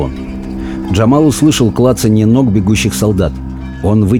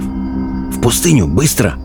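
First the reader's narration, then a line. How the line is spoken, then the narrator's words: Whisper. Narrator (Russian): шепнул Абдулла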